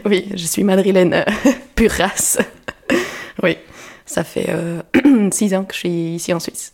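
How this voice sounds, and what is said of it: Slight Spanish accent in French. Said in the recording (French): “on entend très légèrement, t'as un tout petit accent. Tu viens d'Espagne”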